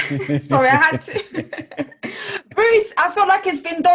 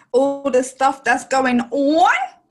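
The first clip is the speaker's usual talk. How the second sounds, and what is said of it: Imitates another person's accent. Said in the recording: “you mocking my accent now.”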